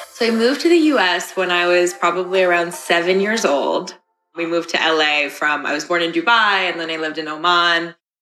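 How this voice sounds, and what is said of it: American accent. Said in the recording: “I just always kind of had an American accent”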